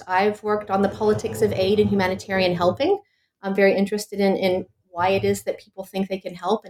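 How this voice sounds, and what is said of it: American English accent. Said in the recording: “you might have noticed from my accent, I'm actually American.”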